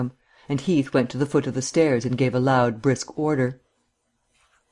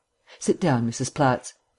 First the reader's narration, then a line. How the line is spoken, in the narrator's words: Markham greeted her kindly